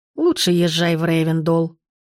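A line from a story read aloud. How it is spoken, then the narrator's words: Contented grumble, old woman. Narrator (Russian): довольно проворчала бабушка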